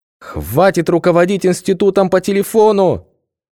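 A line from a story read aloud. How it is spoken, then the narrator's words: Shout from the audience. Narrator (Russian): крикнули из зала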